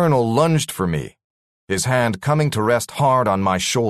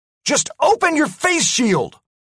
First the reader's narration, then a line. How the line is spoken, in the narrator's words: I yelled at MacDougall